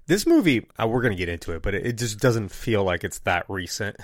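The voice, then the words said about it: Sick, rough voice. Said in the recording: “my voice is a little... I've been kind of sick since... So I'm going to sound like this the whole time”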